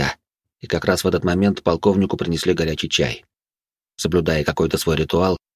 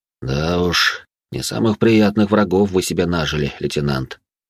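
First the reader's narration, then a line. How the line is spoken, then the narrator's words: Added with heavy sigh. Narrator (Russian): тяжело вздохнув, добавил он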